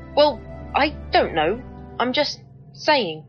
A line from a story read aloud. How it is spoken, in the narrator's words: Not quite realising what I'd said, the Doctor stammered